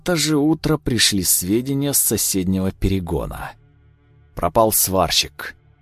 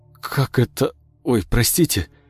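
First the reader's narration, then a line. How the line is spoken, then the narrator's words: Stammering in bewilderment. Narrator (Russian): В оторопи стал заикаться Андрей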